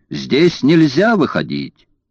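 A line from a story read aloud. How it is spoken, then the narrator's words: Conductor shouting. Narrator (Russian): кондуктор закричал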